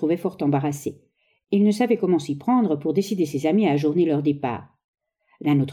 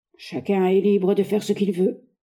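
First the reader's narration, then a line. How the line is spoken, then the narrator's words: Curt declaration. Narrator (French): déclara-t-il sèchement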